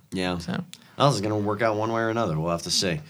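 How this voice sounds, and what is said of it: Congested, extra deep voice. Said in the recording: “I have a cold. I know my voice sounds extra deep today”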